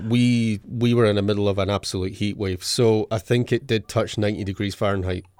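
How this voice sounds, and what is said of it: Scottish accent. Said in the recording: “He is a native of Scotland, as you could probably tell. ... a Scottish accent.”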